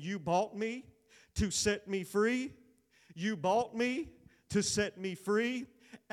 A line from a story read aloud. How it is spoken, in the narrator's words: Slowly, began to say